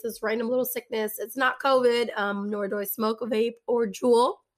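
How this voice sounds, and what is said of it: Raspy, hoarse voice. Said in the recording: “raspy voice... She was just sick this weekend... losing my voice”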